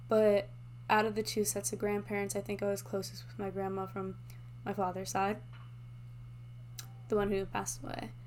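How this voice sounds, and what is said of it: Emotional voice. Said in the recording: “I'm getting emotional now”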